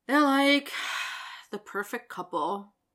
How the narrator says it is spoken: Mitch sighs

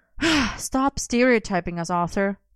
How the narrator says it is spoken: Merlin sighed

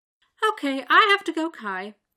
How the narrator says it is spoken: says cheerfully

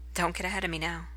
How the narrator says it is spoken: Merlin chuckles and says

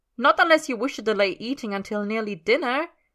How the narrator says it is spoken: Merlin snaps

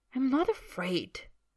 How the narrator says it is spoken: Draco says hotly

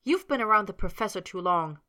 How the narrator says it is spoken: Potter grumbled

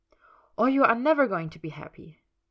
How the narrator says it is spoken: Miss Gerda had told him harshly

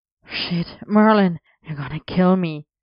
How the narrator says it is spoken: Arthur gasped

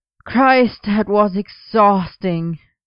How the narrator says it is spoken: Merlin groaned in greeting, theatrically

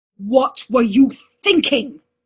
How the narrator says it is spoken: Uther roared

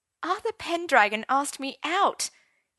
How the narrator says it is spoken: he complained to Gwen

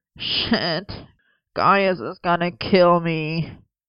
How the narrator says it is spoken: Merlin groaned

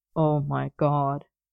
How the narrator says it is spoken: Arthur groaned, to hide his snigger

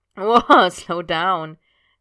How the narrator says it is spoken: Sid said, laughing

